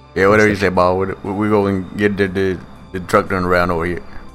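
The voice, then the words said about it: Bayou Billy-style character voice. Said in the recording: “Do the voice ... What does Cletus say back? ... That's his voice now ... he sounds like Bayou Billy's cousin.”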